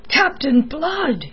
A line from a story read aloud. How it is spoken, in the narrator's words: he cried